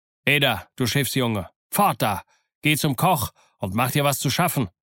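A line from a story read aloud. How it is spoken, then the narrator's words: Called out. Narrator (German): rief er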